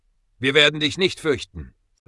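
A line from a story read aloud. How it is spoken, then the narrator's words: Calling out. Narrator (German): rief Ezekiel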